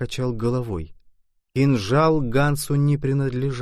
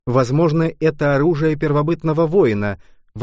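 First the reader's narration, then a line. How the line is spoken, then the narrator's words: Exclaimed. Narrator (Russian): воскликнул я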